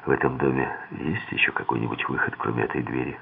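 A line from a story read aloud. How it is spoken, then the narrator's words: Whispered question. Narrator (Russian): шепотом спросил я ее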